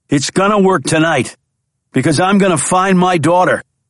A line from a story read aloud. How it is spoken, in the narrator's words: Jack shouted back at him